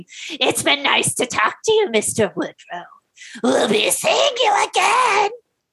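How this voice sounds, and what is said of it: Strained Joker-like, Gollum-like villain voice. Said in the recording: “I ended up just descending into Mark Hamill's The Joker, and now my throat hurts ... You sounded like fucking Gollum ... I sounded like Dollar General, Dollar Store Joker, which was not good ... it sounded terrible”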